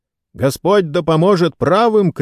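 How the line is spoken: Shouted. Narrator (Russian): крикнул сэр Брайан Фитцуильям

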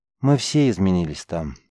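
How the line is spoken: Sad remark. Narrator (Russian): печально заметил Рис

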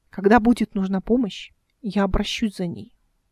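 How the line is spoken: Cold tone. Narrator (Russian): холодным тоном сказала она

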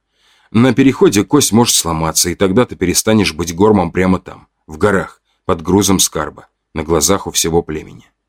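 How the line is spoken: Calm. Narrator (Russian): продолжал я спокойно

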